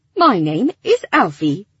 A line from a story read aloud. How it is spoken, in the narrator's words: the creature responded, his voice clear and clipped